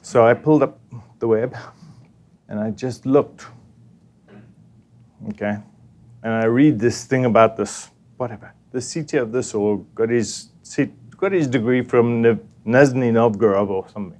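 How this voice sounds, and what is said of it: Speaker's own foreign accent. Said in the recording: “my funny accent”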